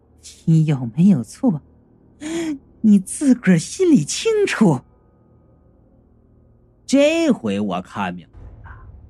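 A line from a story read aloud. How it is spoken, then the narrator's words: Sneering. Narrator (Chinese): 那女的冷笑道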